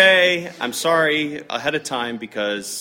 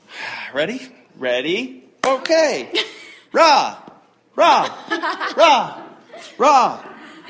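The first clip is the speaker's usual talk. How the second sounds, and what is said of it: Bad imitation of a cheerleader chant. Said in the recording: “my cheerleading impression ... it's bad”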